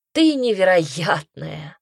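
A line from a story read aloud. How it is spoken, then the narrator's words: Sighing. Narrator (Russian): вздохнул Пайер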